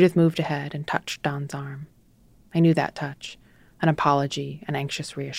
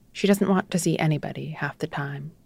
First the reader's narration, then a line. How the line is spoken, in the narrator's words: she said